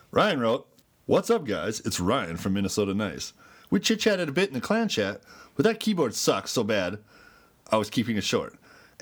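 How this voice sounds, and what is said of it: Newscaster-style reading voice. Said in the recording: “Newscaster. ... Newscaster voice.”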